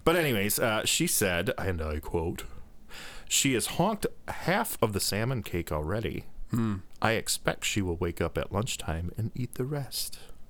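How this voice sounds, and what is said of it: Weak attempt at English accent. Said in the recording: “I can't do a good English accent anyway. ... Why is she saying all weird?”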